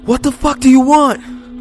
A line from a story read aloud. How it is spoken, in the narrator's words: I screamed with anger, fear, but mostly frustration